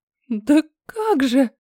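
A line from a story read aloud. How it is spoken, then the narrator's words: Frightened squeak. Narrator (Russian): Пропищала, страшась даже пошевелиться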